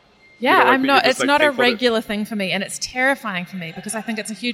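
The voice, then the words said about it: New Zealand accent. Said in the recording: “she did not understand my accent at all ... in a New Zealand accent”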